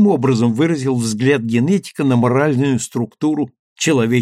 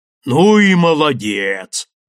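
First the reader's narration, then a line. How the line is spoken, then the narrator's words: Sudden booming voice. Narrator (Russian): неожиданно прогудел Андреев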